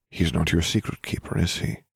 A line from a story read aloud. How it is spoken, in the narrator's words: Dumbledore murmured